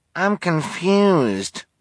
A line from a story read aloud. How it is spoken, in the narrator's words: whined a volunteer